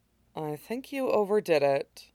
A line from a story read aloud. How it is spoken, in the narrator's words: Amaya murmured